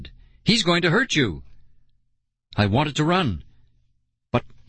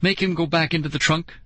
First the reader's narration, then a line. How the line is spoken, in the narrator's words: she cried